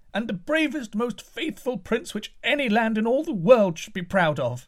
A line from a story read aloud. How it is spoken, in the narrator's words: cried the people of the court